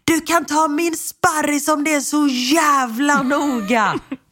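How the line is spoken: Angry outburst, screaming. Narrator (Swedish): Min syster brinner då av … skriker

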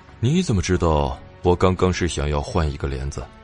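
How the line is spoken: Flat monotone. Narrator (Chinese): 傅伯声音一成不变的问他

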